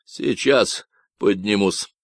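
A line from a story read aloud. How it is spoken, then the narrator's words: Grumbled reply. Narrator (Russian): проворчал кто-то в ответ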